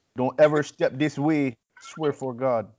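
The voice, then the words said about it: Put-on accent. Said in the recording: “How's that accent?”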